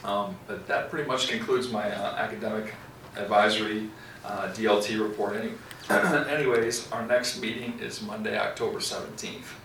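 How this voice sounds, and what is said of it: Hoarse, croaky voice. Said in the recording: “I have a frog in my throat.”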